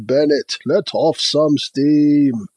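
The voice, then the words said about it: Bad Arnold Schwarzenegger impression. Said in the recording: “Bad Arnie accents”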